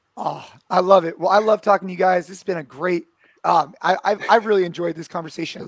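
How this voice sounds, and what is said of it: Hoarse voice. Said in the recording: “I got like a hoarse voice. I've been yelling and screaming.”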